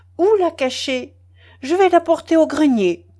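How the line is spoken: Sudden playful cry. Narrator (French): s'écria-t-elle tout à coup avec une sorte d'enjouement

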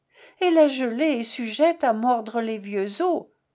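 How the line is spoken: Moaning. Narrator (French): gémit-elle

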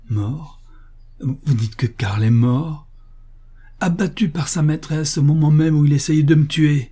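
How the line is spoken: Hate-filled exclamation. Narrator (French): s'exclama Paul, que la haine emportait de nouveau

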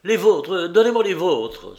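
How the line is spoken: Desperate exclamation. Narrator (French): s'écria Rémi désespéré

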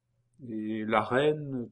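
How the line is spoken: Timid question. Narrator (French): demanda timidement Geneviève

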